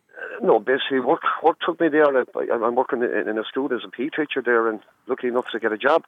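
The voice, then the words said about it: Irish Galway accent. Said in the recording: “anyone who's from Galway will know with that accent that you're definitely not from Donegal”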